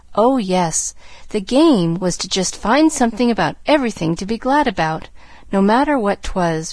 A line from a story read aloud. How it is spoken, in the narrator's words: rejoined earnestly